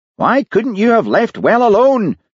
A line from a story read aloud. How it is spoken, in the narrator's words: shouted Daviot